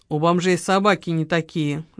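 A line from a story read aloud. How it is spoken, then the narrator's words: Grudging grumble. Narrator (Russian): сдаваясь, пробурчал Леня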